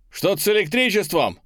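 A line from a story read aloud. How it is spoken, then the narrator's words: Shout. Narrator (Russian): выкрикнул я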